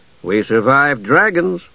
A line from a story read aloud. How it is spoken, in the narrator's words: Caramon said cheerfully